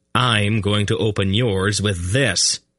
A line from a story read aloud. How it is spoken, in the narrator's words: the young king declared firmly